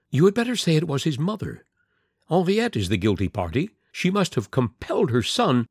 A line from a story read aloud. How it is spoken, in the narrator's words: the Countess exclaimed